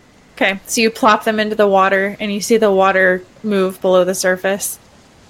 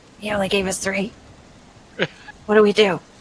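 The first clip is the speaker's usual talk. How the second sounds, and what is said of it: Whispering voice. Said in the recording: “you hear some whispering in common”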